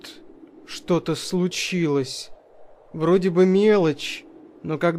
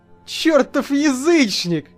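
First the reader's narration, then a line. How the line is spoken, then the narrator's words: Yelling, laughing loudly. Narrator (Russian): заорал я, громко смеясь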